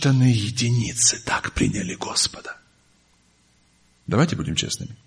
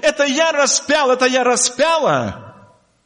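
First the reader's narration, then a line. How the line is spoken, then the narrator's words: Crying out, remorseful. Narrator (Russian): мы били себя в грудь и кричали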